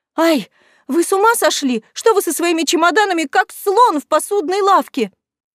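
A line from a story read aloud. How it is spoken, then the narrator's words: Sharp startled cry. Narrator (Russian): вскрикнула она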